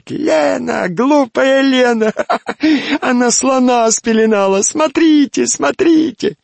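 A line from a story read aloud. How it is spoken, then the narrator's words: Laughing and shouting. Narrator (Russian): я стала смеяться и кричать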